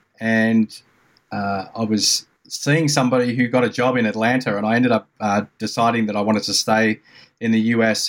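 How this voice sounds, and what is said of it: Australian accent. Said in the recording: “that accent isn't Greensboro, North Carolina, is it? ... It's Melbourne, Australia.”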